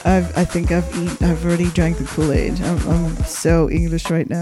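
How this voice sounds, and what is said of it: Put-on posh English accent. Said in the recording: “In your finest Queenie accent”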